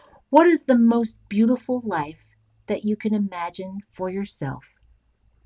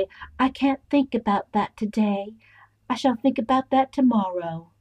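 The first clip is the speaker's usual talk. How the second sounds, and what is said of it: Poor Scarlett O'Hara impression. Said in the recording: “That was my impression. It sucked”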